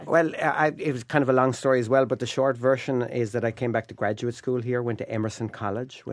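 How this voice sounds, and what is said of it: Irish accent. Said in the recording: “obviously you are Irish... I can't hide it... this accent”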